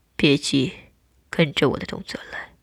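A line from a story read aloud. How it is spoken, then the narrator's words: Soft, soothing. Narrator (Chinese): 他轻声安抚道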